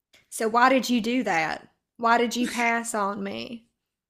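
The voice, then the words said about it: Imitates another person's voice. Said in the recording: “Was that a good Dr. Phil impersonation?”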